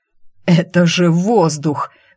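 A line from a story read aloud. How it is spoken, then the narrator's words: Delighted exclamation. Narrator (Russian): восхищенно воскликнул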